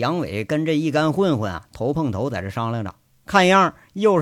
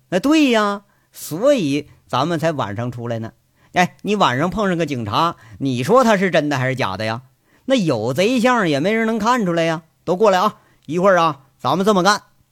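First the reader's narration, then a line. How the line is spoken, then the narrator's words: Laughing. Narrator (Chinese): 杨伟笑着就说了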